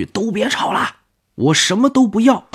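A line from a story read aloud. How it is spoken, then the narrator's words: Loud shout. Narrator (Chinese): 大声喊了一句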